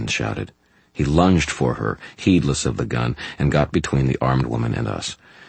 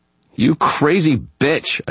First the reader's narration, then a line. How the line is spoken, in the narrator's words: shouted